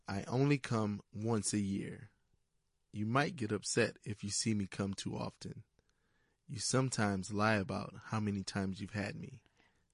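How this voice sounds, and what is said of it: Sultry, seductive voice. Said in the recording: “in his sultry voice”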